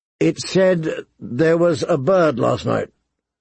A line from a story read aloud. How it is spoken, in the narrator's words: he asked hesitantly